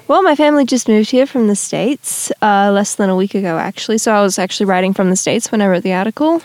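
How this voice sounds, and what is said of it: Australian accent. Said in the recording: “you don't sound like an American, so I assume you're from Australia ... I've worked very hard to keep my accent”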